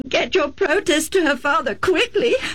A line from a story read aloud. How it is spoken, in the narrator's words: Rebecca sobbed